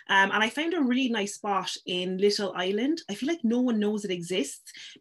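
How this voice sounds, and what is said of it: Irish Cork accent. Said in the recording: “You definitely have a Cork accent. ... you can hear your Cork accent come through.”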